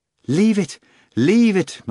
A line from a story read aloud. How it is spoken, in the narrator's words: Margarita cried